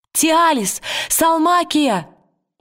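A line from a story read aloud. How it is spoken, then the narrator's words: Shouting. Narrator (Russian): закричала Лира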